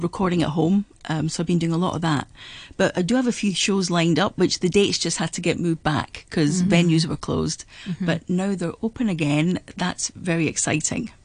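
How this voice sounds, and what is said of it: Scottish accent. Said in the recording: “you can hear the lovely Scottish accent ... you're from Edinburgh”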